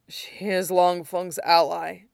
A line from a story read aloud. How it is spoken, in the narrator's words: Quan said hoarsely